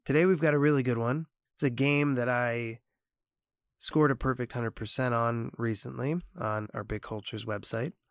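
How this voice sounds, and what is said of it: Weakened, not fully recovered voice. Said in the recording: “Lost my voice there for a week... Still don't have my full voice back”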